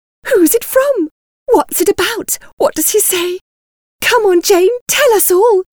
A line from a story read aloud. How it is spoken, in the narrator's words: exclaimed